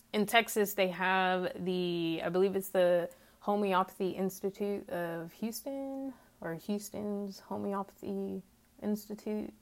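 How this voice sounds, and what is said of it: Twangy Texas accent. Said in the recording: “I do know where I live in Texas. If you cannot tell by my twangy accent that apparently some people hear”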